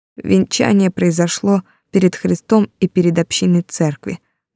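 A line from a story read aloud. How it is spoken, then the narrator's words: Trembling voice, priest. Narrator (Russian): дрожащим голосом продолжил падре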